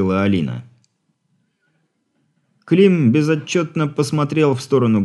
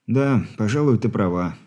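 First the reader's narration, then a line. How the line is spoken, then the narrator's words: Sighed. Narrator (Russian): вздохнул парень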